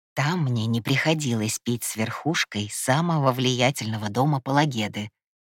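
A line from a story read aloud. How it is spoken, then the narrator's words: Barely audible mumble. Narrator (Russian): едва шевеля губами, пробормотал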